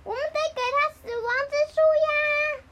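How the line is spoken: Shouting. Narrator (Chinese): 杰克大喊

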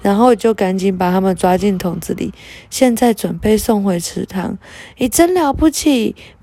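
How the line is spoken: Admiring praise. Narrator (Chinese): 佩特娜拉忍不住赞叹

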